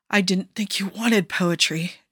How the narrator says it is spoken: Joe gasped

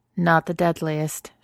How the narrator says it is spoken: she says

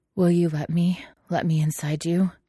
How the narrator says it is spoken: He panted

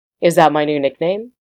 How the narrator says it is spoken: Ronan chuckled

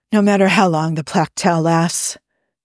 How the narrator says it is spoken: gasped Spock

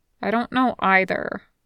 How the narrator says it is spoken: Dazai mumbles

